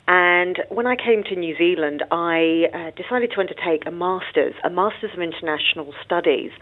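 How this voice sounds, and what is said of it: British accent. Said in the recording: “I came from the UK, as you can tell from my accent.”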